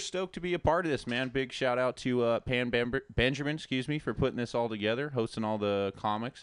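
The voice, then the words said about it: Good radio voice. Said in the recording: “You have a really good radio voice, man. Sexy. ... you got a good radio voice.”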